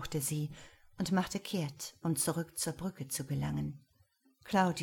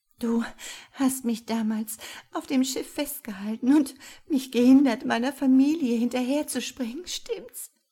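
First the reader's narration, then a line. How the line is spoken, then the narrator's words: Sobbing. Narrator (German): schluchzte sie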